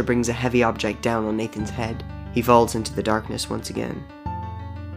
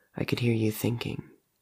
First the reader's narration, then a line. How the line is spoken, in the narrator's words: murmurs